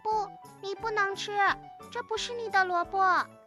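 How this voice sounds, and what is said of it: Tiny, thin small voice. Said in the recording (Chinese): “一个很细小的声音说”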